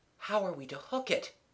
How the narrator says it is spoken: he murmured

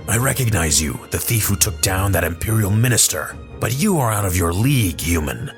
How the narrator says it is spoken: Bossk growled back at the doctor through his tightly clenched teeth

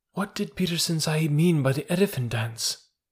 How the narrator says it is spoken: said at last, softly

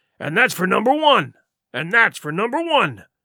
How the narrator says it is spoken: cried the accused, for he'd been talking with the vehemence that shook the house

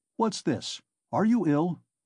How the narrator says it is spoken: Nikodim Fomitch asked, rather sharply

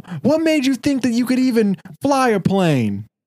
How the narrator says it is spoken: they're yelling mean questions

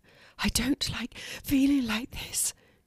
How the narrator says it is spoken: she said between gasps of breaths

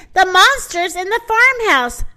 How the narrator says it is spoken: shouted the rooster

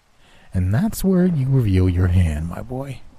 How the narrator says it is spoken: Orchid said with a condescending chuckle

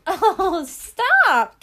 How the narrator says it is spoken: giggled, knitting away

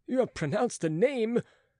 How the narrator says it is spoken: cried Philippe

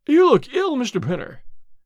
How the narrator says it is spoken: he exclaimed

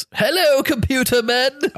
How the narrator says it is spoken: shouts

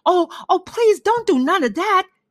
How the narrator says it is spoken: he begged

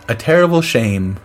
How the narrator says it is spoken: I said

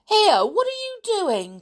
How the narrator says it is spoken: cried Julian indignantly

